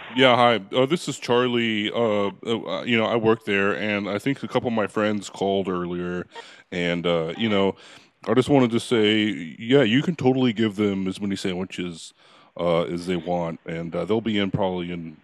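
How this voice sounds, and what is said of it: Unconvincing imitation of another person's voice. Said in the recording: “the Charlie impersonation, but it's not the best one in the world”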